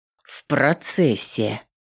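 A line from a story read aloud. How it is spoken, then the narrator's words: Grumbling. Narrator (Russian): проворчала воительница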